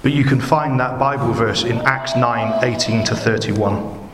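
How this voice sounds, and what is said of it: Bristolian English accent. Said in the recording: “my funny Bristolian accent”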